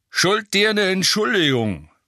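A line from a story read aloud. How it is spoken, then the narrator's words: Grunting voice. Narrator (German): grunzte eine Stimme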